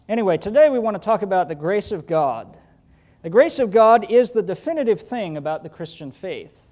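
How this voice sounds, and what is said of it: Slight Southern US accent. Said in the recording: “I was born in South Georgia, Valdosta ... I still preach with a little bit of an accent ... I was born in the South. I went to seminary in the South.”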